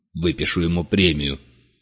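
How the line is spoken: Grumbling. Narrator (Russian): проворчал Вольво

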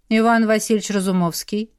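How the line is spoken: Cold reply. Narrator (Russian): холодно ответил ему брат

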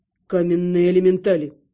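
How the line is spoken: Calm answer. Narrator (Russian): спокойно ответил Терн

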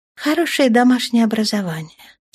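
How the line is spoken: Regretful sigh. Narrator (Russian): с сожалением вздохнула Лиенталия

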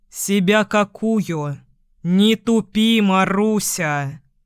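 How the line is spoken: Growled. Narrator (Russian): Рычал Костров

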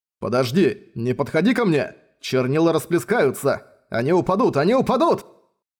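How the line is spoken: Shouted. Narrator (Russian): Крикнул Райнер

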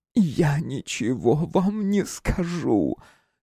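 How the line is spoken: Hoarse woman. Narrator (Russian): хрипло ответила женщина

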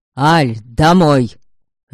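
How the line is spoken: Deafening bark. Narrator (Russian): Рявкнул так, что Арина оглохла

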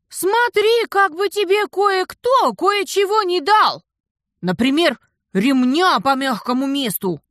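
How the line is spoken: Annoyed shout after someone. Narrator (Russian): досадливо крикнула я ему вдогонку

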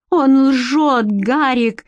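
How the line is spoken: Desperate exclamation in Norwegian. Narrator (Russian): отчаянно воскликнула Бренна на норвежском

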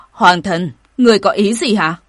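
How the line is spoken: Shouting. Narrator (Vietnamese): Vu Hồng quát

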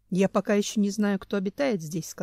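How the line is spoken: Plain. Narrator (Russian): сказал Семен

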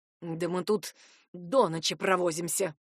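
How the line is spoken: Teacher muttering under breath. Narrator (Russian): буркнул себе под нос преподаватель

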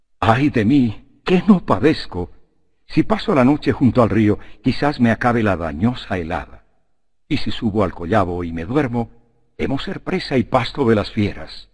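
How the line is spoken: Moaning. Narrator (Spanish): Odiseo gimiendo a su espíritu, dijo

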